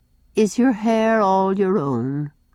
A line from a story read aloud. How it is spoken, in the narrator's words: said sadly